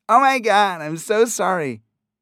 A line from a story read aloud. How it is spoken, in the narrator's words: the girl screeched into his ear, nearly deafening him